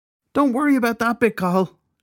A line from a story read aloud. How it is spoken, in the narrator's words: Shelley shouted